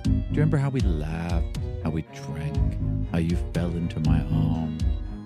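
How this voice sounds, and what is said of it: Character voice, weird accent. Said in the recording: “Belagard's weird accent”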